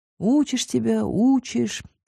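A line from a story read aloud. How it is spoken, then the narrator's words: Heavy sigh. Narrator (Russian): тяжело вздохнул Макс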